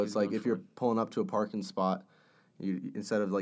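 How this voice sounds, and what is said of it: Usual voice. Nothing is said of it.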